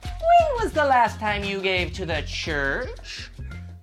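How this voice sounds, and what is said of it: Church lady character voice. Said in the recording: “my church lady impersonation.”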